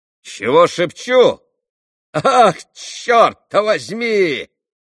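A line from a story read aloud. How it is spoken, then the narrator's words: Sudden full-voiced shout. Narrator (Russian): крикнул вдруг Дмитрий Федорович самым полным голосом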